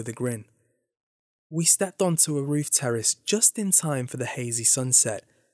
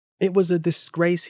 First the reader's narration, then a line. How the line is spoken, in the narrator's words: he said